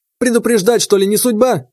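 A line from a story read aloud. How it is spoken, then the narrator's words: Snapping retort. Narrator (Russian): огрызнулся Степаныч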